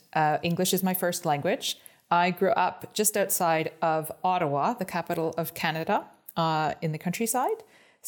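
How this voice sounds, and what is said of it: Non-stereotypical Icelandic-tinged English accent. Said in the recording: “yours is not an entirely conventional Icelandic accent ... This is not a stereotypical Icelandic accent”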